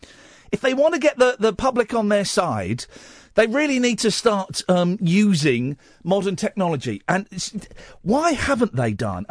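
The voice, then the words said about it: Flippant, light-hearted tone. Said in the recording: “I'm doing it in my making light voice.”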